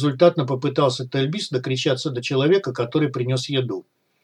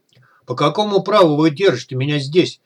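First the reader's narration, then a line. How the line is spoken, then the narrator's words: Near shout, abruptly cut off. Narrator (Russian): Гера почти закричал, но моментально осекся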